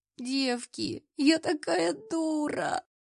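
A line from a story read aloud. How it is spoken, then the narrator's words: Sobbing. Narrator (Russian): всхлипывала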